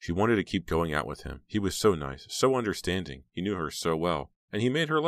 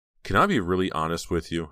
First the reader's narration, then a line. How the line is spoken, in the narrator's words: Heather asked, coiling the phone wire nervously around her wrist